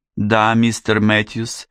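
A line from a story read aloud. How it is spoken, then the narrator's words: Headwaiter, slight Chinese-like accent. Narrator (Russian): ответил метрдотель с легким акцентом, похожим на китайский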